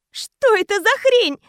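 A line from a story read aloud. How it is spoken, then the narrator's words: Shaking, disbelieving scream. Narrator (Russian): закричала я, сотрясаясь всем телом и не веря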